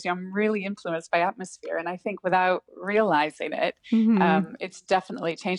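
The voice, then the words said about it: Soft American accent. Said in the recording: “people ask where I was from in America ... more people are asking if I'm Canadian ... a bit of like a softer American accent”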